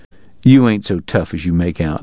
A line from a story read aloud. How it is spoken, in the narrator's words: he said